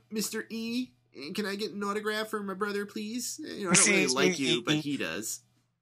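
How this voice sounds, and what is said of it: Imitates a kid's voice. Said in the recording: “doing this impersonation of some kid”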